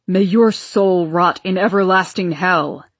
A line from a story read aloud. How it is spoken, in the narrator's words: roared Papa, stepping forward threateningly